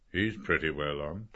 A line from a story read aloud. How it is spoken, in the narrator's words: Professor McHugh said in a low voice